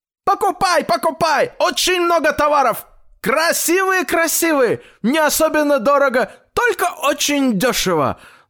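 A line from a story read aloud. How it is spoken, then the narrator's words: Loud shout close by. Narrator (Russian): Закричали у дедушки прямо над ухом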